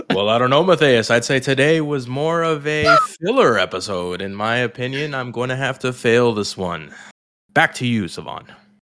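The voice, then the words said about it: Announcer-style radio voice. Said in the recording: “Radio voice.”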